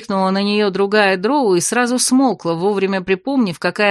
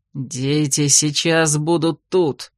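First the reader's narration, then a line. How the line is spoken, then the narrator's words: Menacing growl. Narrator (Russian): грозно рыкнул когтистый, змееглазый глава дома Детинард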